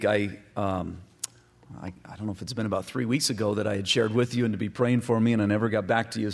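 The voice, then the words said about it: Slightly strange voice from a cold. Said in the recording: “starting to get a cold, so my voice is going to sound just a little bit strange.”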